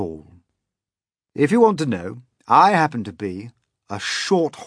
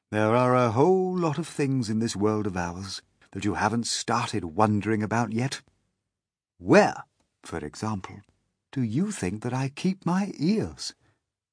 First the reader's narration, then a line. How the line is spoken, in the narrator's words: the old green grasshopper said gently